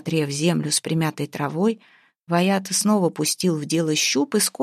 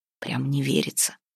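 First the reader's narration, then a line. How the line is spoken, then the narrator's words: Whisper. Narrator (Russian): шепнул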